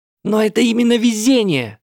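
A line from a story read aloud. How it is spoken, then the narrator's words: Screaming. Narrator (Russian): завопила Сакура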